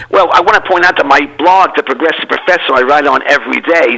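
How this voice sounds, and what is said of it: New York City accent. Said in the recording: “that really cool accent is real, folks. He's a native of New York City”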